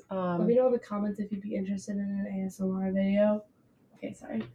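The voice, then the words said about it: Congested voice from a cold. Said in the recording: “I have a cold. ... That's why I sound like this.”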